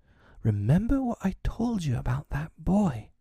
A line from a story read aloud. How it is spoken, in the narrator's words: Darling whispered